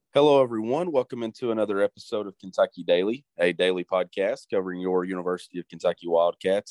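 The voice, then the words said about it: Stuffy-nosed congested voice. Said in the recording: “I've got a little bit of a cold. I've had kind of stuffy nose for the last two or three days ... if I sound a little off”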